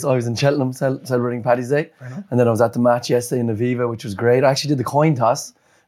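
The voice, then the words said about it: Raspy, hoarse voice. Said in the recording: “you can probably hear from my voice ... Raspy voices on the two of you”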